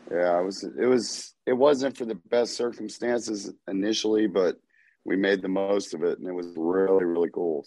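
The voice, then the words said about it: Froggy, husky voice. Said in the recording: “my voice is a little different, froggy right now”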